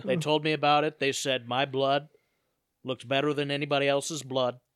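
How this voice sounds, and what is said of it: Imitates another person's voice. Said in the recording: “where that impression just came from ... It wasn't bad.”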